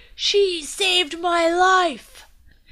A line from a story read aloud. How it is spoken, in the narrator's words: The knight shouted over the crowd